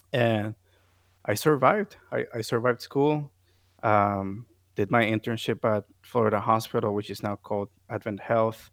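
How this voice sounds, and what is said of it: Noticeable non-native English accent. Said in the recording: “my accent, which is still there, but my accent was very, very thick”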